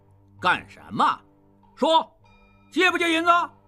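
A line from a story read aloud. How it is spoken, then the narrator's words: Soldier asking. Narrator (Chinese): 一个兵将问道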